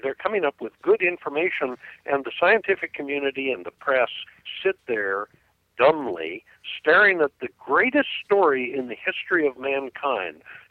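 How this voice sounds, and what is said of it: Frustrated, exasperated voice. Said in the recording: “I'm very frustrated. I'm sure our listeners can hear it in my voice”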